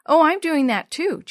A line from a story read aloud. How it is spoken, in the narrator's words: Jenny replied eagerly